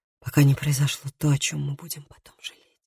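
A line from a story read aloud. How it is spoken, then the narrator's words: Breathless whisper. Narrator (Russian): прошептал он, задыхаясь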